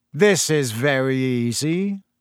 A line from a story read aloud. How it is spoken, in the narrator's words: Malfoy drawled loud enough for Harry to hear him